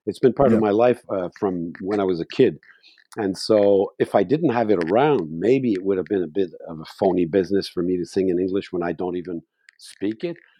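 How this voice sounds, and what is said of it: Strong French accent in English. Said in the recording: “I have a big French accent when I speak”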